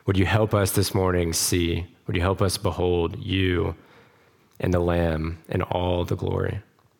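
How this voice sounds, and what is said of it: Strained voice from lingering illness. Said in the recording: “Sorry for my voice. ... I've still got a lingering cough.”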